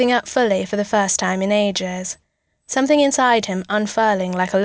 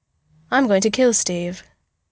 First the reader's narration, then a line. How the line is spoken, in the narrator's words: Bruce says calmly